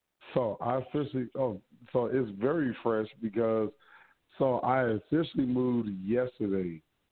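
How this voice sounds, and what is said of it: Lost voice from yelling, hoarse. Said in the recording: “I lost my voice. I've been, you know, between all that yelling”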